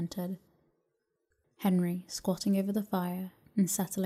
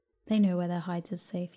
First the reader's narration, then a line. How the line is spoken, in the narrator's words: he said